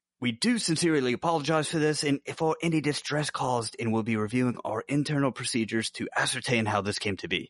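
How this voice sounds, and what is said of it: Poor put-on British accent. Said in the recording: “if you're going to try to really sell the British accent... you probably shouldn't do an Australian accent when you're doing it either... my British accent is so bad”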